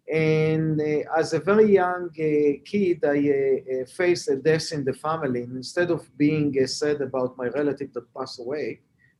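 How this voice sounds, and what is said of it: Israeli accent. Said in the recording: “As you can hear from my accent, I'm not a Native American. I was born and raised in Israel.”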